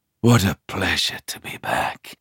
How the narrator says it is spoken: I whisper

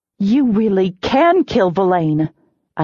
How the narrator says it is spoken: I exclaimed

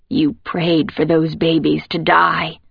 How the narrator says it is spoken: she rasps now, much louder than before, her voice completely changed

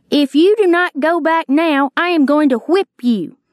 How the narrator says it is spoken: Labeef shouted to me again, saying

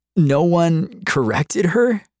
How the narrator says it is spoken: I wheezed

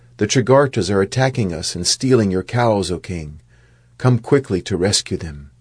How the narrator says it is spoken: a cowherd ran in and exclaimed

